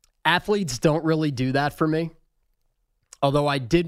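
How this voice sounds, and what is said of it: Usual voice. Nothing is said of it.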